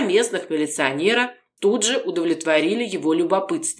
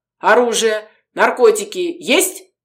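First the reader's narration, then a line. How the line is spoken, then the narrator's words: Sudden bark. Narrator (Russian): тут же гаркнул Арсентьев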